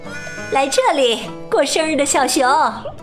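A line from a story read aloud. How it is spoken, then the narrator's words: Mother calling out. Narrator (Chinese): 妈妈在叫他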